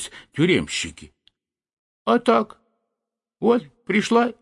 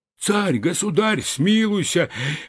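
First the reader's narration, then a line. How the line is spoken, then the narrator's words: Wailing, begging men. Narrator (Russian): вопили тюремщики, валяясь у него в ногах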